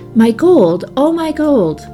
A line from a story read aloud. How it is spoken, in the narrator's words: cried the miser wildly